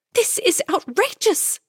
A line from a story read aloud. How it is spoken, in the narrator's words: Camilla cried